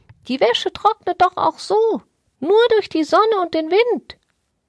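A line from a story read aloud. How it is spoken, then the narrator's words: Small parrot calling out. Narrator (German): rief der kleine Papagei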